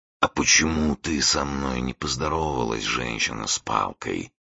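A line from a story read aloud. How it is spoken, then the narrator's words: Muffled quiet voice. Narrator (Russian): спросил Бату глухим тихим голосом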